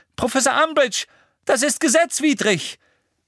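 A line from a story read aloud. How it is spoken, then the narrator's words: Shouted. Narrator (German): schrie Hermine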